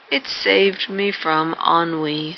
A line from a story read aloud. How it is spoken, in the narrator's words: he answered, yawning